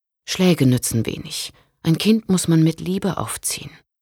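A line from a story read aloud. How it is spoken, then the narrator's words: Sad. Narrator (German): sagte Friederike traurig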